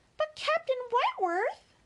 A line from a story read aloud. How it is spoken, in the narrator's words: cried Louisa